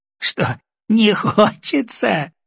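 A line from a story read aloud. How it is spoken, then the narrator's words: Laughing grandmother. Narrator (Russian): засмеялась бабушка-доктор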